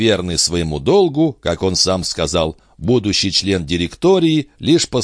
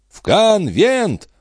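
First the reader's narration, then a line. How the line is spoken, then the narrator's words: Crowd yelling. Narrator (Russian): вопили бунтовщики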